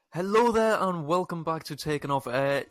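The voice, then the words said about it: Exaggerated show host voice. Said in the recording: “in my host voice”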